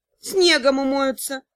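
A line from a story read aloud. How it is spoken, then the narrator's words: Gruff mutter. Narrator (Russian): буркнул мастер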